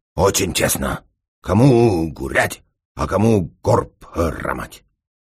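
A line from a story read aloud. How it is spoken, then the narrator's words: Grumbling. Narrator (Russian): Японец же ворчал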